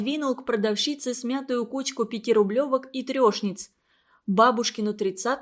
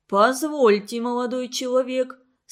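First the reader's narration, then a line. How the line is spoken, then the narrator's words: Booming bass voice. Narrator (Russian): сказал он раскатистым басом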